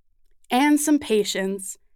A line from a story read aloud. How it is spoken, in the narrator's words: Sheila adds, chuckling